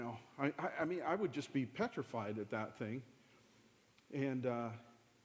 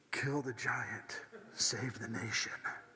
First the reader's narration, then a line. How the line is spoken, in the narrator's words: God whispers in my ear